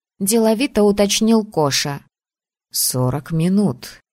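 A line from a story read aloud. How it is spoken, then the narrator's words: Plain. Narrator (Russian): сказал Асгар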